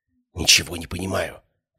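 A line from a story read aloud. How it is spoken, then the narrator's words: Whispered. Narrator (Russian): прошептала Ария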